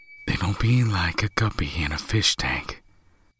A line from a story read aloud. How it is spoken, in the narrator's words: David said softly